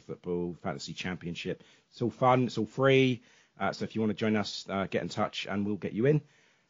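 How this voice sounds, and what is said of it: Hoarse, failing voice. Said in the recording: “Ugh, losing my voice.”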